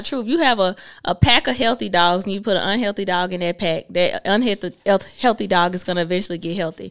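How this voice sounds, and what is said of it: Southern US accent. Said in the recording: “our southern accent. Why do we talk like this?”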